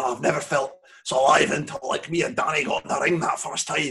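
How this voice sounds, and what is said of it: Put-on Scottish accent. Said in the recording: “I don't know why I did a Scottish accent there.”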